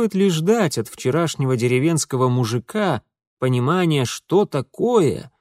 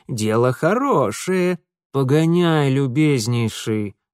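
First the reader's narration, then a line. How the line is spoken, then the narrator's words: Through gritted teeth. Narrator (Russian): сквозь зубы процедил Митя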